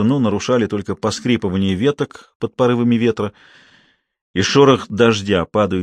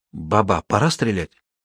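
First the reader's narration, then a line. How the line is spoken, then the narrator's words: Young whispered question. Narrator (Russian): Молодой голос шепотом спросил на Исиндебеле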